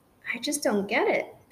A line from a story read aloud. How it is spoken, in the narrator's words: Bigelow muttered in confusion